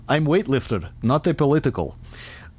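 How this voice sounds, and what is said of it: Put-on Russian accent, broken English. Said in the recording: “Should I have done a Russian accent? ... I have to because his next text is broken English.”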